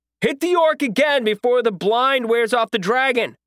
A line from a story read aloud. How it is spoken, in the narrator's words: I yelled, realizing it was about to be able to see me any second now